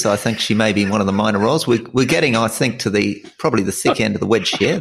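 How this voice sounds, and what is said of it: Put-on Australian accent. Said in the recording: “Very good accent. Very good. Oh, almost Ricky Ponting.”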